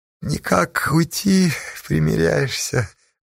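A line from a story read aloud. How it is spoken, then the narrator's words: Mocking question. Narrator (Russian): насмешливо спросил Веденей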